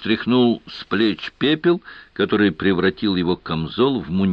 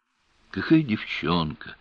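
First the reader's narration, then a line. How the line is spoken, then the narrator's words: Gloomy question. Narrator (Russian): мрачно поинтересовался Рошаль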